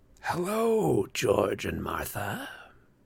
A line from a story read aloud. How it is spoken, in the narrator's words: said a raspy male voice inside my head